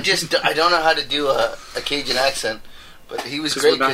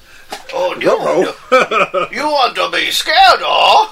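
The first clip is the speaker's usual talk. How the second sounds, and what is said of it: Bad attempt at Cajun accent. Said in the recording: “I can't even do a Cajun accent ... You sound like you're trying to do a bad... ... It sounds like you're trying to do Fat Bastard.”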